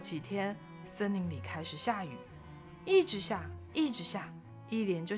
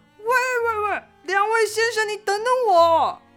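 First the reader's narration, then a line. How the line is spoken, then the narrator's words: Loud shout from behind. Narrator (Chinese): 阿张在后面大喊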